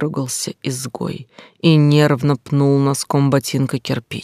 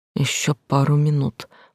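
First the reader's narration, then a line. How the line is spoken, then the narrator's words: Mumbling. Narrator (Russian): пробормотал Ник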